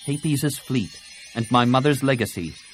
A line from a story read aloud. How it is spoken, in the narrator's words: Tenel Ka said curtly